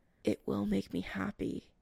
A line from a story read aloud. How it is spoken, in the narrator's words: Chris mumbles